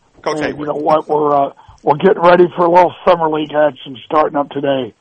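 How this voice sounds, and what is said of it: Hoarse voice. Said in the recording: “your voice is a little hoarse. Have you been yelling that much at the kids already?”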